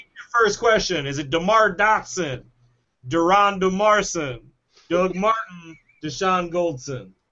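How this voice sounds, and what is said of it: Speaks in a put-on accent. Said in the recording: “I got my accent back. ... I hate your accent.”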